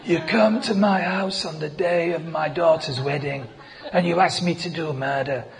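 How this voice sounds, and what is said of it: Weak Godfather-style Italian accent. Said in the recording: “It was Italian accent. You know, if you just think Godfather, that was Judas ... I can't do it very well.”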